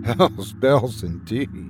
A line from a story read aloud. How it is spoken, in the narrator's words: she muttered to herself